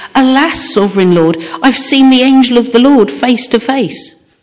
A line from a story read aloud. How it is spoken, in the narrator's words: When Gideon realized that it was the angel of the Lord, he exclaimed